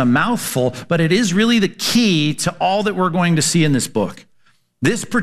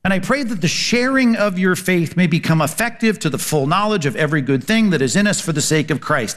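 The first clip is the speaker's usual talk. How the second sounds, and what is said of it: Reading quickly. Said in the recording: “I read that quickly.”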